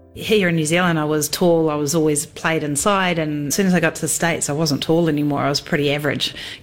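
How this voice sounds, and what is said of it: New Zealand accent. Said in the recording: “her Kiwi accent”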